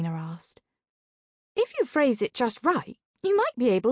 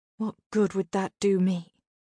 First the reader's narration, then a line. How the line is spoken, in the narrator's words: I sighed